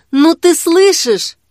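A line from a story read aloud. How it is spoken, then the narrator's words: Exclaiming. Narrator (Russian): в конце концов воскликнула Жанна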